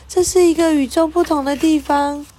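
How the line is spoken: Loud young woman. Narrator (Chinese): 一位年轻的女士高声说

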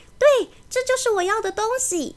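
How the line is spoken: Excited shout, magician. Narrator (Chinese): 魔术师 却兴奋地大叫起来

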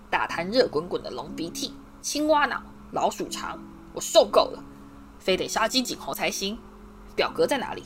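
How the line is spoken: Angry muttering. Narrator (Chinese): 他愤怒的喃喃自语

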